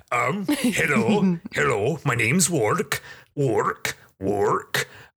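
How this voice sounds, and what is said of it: Put-on character voice. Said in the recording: “I need to get into the voice ... this character voice”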